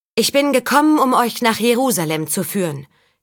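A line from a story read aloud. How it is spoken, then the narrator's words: Calling across village square. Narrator (German): rief Saga über den Platz im Zentrum des Dorfes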